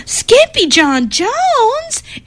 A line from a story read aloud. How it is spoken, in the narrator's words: everyone cried